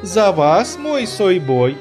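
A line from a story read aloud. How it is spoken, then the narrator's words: Cheerful ringing flirtatious exclamation. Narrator (Russian): Весело воскликнула королева Райнара Фандалов и Первых Людей своим звонким высоким голосом, полным легкомыслия и любовного интереса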